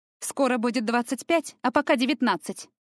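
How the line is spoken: Snapped. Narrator (Russian): огрызнулась Таяна

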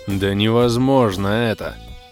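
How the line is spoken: Irritated insistence. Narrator (Russian): в который уж раз заявил коротышка Крей, раздраженно почесывая бровь

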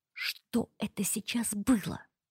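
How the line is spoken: Hissed. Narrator (Russian): прошипела

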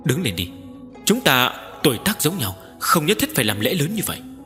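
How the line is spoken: Laughing, friendly. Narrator (Vietnamese): cười nói

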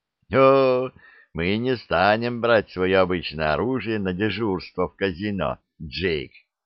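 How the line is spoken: Careless laughter. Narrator (Russian): небрежно рассмеялся Шут

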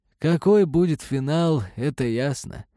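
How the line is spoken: Sad joking. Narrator (Russian): печально пошутил Борис Викторович

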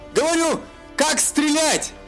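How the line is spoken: Shouting. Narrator (Russian): Прокричал Элендил

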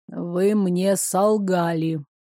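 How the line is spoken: Gloomy announcement. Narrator (Russian): мрачно возвестил Несебр

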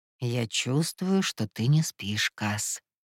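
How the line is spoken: Soft warning. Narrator (Russian): мягким тоном предупредил Кай

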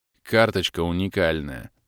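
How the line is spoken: Glum reply. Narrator (Russian): уныло ответил я

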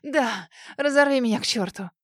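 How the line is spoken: Moaning. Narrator (Russian): Застонала

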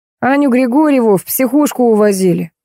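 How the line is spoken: Sigh. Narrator (Russian): вздохнул Костин

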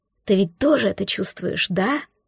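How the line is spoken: Whispered. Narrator (Russian): шептал Ольгер

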